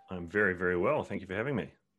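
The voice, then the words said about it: New Zealand accent. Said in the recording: “I love that accent. ... I'm from New Zealand originally. So that's where most of the twang comes from.”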